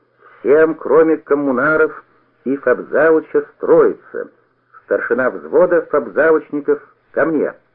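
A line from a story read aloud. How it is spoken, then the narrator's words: Crisp loud command. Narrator (Russian): меняя тон, Пологутин четко, громко скомандовал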